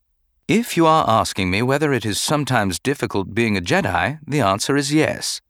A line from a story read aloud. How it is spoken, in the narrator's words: replied calmly